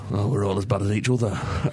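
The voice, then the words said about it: Mick McCarthy accent impression. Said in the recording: “Say that in Mick McCarthy's accent?”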